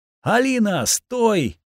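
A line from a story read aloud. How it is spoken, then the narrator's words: Shouting. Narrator (Russian): выкрикнул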